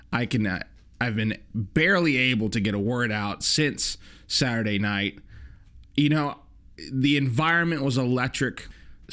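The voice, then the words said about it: Hoarse, strained voice. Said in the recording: “I can tell your throat is in bad shape ... If you hear it in my voice, I'm hoarse as hell.”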